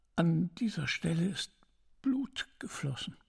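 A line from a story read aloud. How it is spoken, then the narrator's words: Old woman, quiet reply. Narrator (German): erwiderte die alte Haushälterin leise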